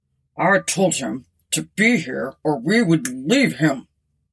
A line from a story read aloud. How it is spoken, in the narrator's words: the captain grumbled